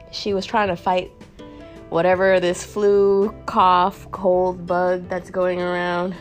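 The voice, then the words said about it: Nasal, congested sick voice. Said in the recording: “I sound a little nasally and not like myself ... Your girl's a little sick.”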